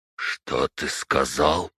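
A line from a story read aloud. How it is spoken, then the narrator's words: Old man's frightened whisper. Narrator (Russian): прошептал дед бледнее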